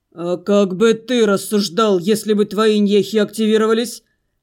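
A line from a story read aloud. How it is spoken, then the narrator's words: Growled. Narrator (Russian): рыкнул Арина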